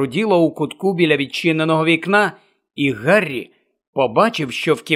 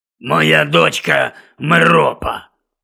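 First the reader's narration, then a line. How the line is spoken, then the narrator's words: Reluctant grumble. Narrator (Ukrainian): неохоче буркнув Гонт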